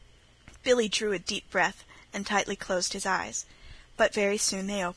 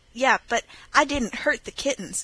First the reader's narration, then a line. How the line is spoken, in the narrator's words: exclaimed Billy